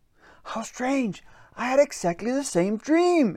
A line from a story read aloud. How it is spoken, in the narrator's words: exclaimed Peter Troll